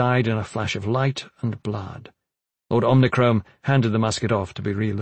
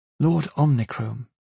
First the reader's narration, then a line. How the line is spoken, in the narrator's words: she said, her voice even